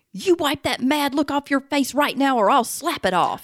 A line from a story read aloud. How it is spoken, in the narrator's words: this mom pointed her finger in his face and yelled